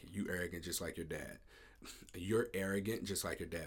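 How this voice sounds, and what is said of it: Speaker's natural accent slipping out. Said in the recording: “My accent coming out.”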